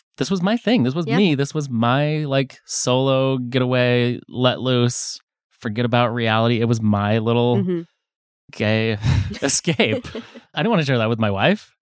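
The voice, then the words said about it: Sarcastic tone. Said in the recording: “That was sarcasm”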